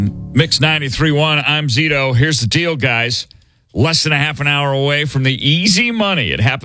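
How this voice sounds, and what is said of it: Usual voice. Nothing is said of it.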